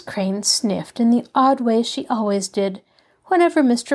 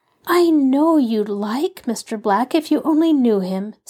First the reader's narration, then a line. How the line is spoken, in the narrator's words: said Betty earnestly